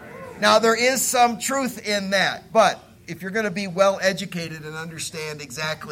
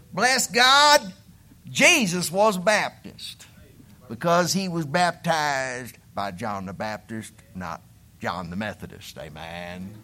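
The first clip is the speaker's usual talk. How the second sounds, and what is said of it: Put-on hillbilly accent. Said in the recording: “I'm going to shift into my hillbilly ignorant accent”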